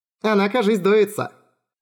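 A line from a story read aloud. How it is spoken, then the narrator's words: Laughing. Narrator (Russian): рассмеялась Итея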